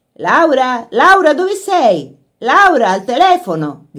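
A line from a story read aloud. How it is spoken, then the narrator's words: Voice shouting from the house. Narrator (Italian): gridò una voce dalla casa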